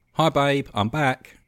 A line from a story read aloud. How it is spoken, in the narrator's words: Tom called out as he came through the front door